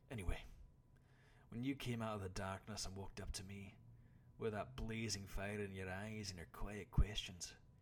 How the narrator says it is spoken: the man sighed

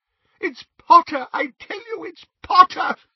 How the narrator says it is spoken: sobbed Xenophilius

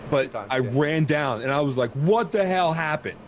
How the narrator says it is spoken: I screamed

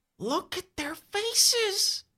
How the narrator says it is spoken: Bobby whispers, his voice trembling

